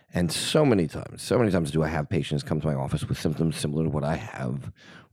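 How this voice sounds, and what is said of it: Husky, congested voice. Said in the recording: “my voice is a little bit sultry today, it's because I've come down with a cold”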